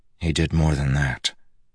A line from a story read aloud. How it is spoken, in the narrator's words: Kaladin growled softly